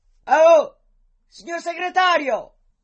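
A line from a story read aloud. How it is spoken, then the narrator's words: Shouted. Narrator (Italian): gli gridò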